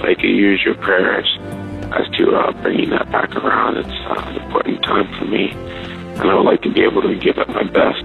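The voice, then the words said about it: Strained, weakened voice. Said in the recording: “As you can tell, my voice is not quite 100%.”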